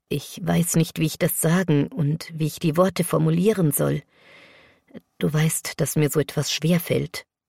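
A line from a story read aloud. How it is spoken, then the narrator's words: Breaking voice. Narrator (German): begann er mit brechender Stimme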